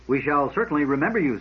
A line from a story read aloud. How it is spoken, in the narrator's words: said Chanis